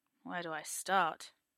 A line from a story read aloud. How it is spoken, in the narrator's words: Merlin murmurs